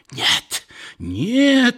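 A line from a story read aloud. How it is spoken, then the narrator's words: Strange, unfamiliar sick woman's scream. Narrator (Russian): закричала больная каким-то особым, не бабушкиным голосом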